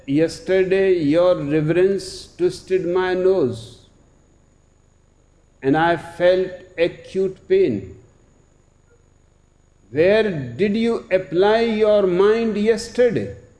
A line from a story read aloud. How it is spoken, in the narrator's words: Matazu asked